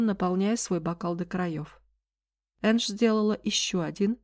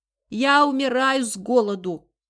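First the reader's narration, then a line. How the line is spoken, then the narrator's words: Shout from next room. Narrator (Russian): снова крикнул Олли из соседней комнаты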